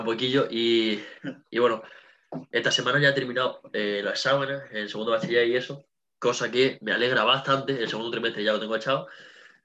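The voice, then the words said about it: Andalusian Spanish accent. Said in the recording (Spanish): “mi acento se nota ... puede ser de Jaén de Málaga”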